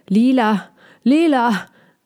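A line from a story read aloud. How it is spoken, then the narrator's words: Called out. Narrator (German): Balbi rief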